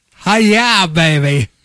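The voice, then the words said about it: Fairly good film character impression. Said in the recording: “your best Austin Powers impression ... Hey, that's pretty good.”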